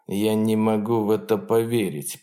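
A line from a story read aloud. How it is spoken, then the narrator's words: Muttered. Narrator (Russian): пробормотал он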